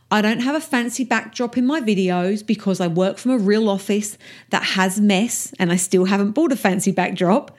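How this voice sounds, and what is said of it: Rough Essex English accent. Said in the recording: “my accent is a little rough around the edges because I'm from Essex in England and that's how we talk”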